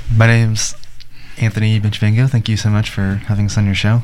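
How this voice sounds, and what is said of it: Good radio voice. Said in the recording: “That's a good radio voice.”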